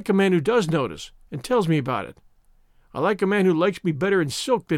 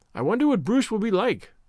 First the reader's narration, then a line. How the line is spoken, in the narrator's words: said Avery